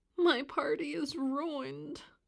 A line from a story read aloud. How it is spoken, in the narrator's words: moaned DW